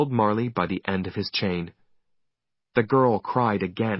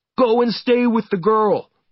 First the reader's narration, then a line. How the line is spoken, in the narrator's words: shouted